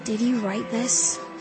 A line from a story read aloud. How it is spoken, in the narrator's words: I breathed